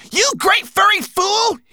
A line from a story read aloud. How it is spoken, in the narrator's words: He shouted at Berber Chan